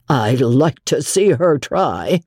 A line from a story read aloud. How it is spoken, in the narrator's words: grimly